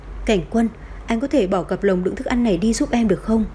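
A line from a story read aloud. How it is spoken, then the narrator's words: Soft smiling voice. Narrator (Vietnamese): Đan Diễn Vi thoáng mỉm cười khẽ nói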